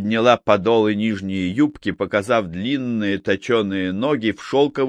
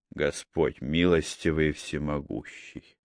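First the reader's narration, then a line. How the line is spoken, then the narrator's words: Muttered. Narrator (Russian): пробормотал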